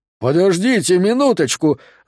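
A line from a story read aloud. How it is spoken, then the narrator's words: Yell. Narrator (Russian): заорал Хэрод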